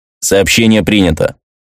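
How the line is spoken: Dry robotic voice. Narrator (Russian): сухо сказал робот

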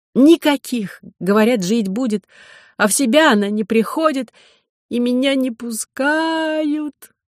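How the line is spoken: Ringing sob. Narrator (Russian): Катерина снова звонко всхлипнула

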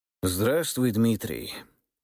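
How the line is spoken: Tired voice. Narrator (Russian): усталым голосом произнес

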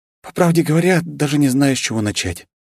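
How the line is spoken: Heavy sigh. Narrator (Russian): тяжело вздохнула Вета

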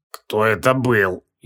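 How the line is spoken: Barely audible wheeze. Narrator (Russian): еле слышно прохрипел он

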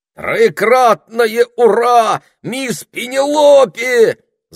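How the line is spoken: Excited shout. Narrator (Russian): закричал, хлопая в ладоши

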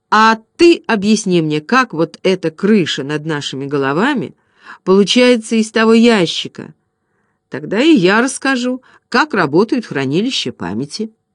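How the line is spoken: Plain. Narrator (Russian): сказал

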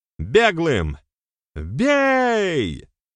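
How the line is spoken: Shouted command. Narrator (Russian): заорал он

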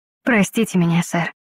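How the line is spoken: Quiet speech. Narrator (Russian): тихо сказала я

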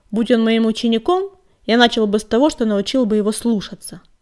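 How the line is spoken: Sullen grumble. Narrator (Russian): угрюмо пробурчал он

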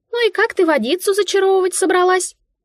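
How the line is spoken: Squeaky mouse voice. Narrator (Russian): пискнула мышка

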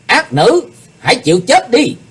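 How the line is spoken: Swordsman's shout. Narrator (Vietnamese): tiếng quát, kiếm khách Phạm Thiên Hòa

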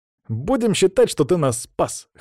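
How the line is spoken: Smirking snort. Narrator (Russian): хмыкнул Саня

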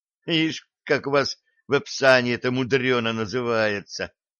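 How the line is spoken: Young man's snort. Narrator (Russian): хмыкнул юноша

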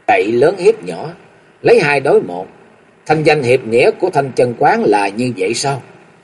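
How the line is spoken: Furious, cold laugh. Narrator (Vietnamese): Nam Cung Lượng nộ khí xung thiên, chàng cười nhạt một tiếng rồi nói

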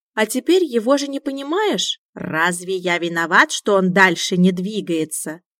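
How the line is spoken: Grumbling, softening mood. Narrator (Russian): Мюн ворчал, но настроение начало потихоньку улучшаться

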